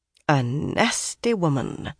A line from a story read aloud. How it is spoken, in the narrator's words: Min murmured